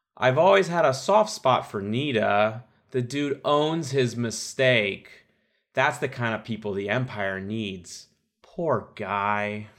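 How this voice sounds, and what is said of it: Impression of another podcaster. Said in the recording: “good Colin impression”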